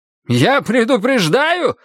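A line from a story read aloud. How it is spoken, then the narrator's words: Sudden squeal. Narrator (Russian): взвизгнул вдруг Гуревич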